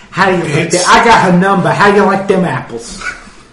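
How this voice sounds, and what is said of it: Boston accent, Matt Damon impression. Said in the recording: “just a Boston accent ... these accents ... that's not how that sounds ... just Matt Damon and Ben Affleck”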